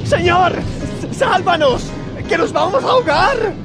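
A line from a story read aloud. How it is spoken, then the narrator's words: Group shouting. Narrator (Spanish): Gritaron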